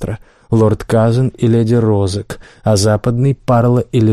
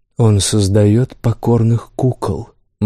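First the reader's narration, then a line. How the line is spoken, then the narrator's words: Gloomy reply. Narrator (Russian): мрачно ответил Тирен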